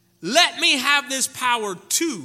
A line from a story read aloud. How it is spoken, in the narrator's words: he exclaimed